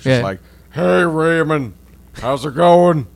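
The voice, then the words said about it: Imitates another person's voice. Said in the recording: “That was us mimicking him ... super accurate ... my impression is dead on ... doing an impression of Brad Garrett doing Robert Barone ... you fucking killed it”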